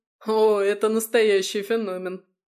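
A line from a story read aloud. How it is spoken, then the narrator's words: Laughing. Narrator (Russian): засмеялся Славик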